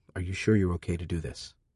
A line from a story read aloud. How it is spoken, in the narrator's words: Keeping my voice low, I said